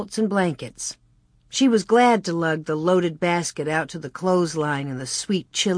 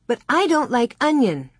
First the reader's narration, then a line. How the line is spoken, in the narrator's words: Mary said crossly